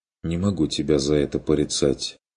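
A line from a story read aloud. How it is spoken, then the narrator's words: Quiet remark. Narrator (Russian): заметил Курт тихо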